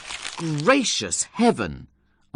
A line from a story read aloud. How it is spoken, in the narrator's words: I cried